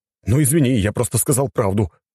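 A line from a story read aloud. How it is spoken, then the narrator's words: Exclaiming. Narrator (Russian): воскликнул цесаревич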